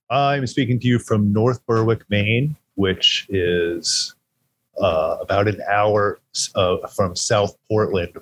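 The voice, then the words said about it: Rich radio-style speaking voice. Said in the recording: “that amazing radio voice of yours ... yours is amazing”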